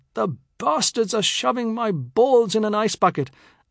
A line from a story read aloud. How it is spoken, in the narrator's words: he had cried out